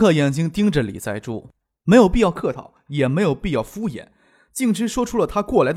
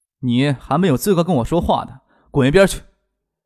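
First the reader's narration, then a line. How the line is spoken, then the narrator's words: Rude and loud. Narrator (Chinese): 张克说话非常的不客气，声音也不小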